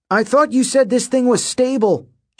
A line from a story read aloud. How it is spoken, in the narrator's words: Jason shouted over the wind